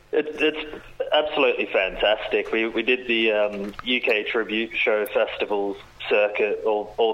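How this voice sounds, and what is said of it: Australian accent. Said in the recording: “you're not from round these parts by the accent ... You're an Aussie, mate. You know, I love your accent.”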